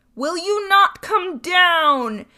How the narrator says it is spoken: bawled Bluebeard

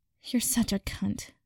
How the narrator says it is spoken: Pansy muttered

